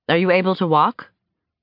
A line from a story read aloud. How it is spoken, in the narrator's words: she'd asked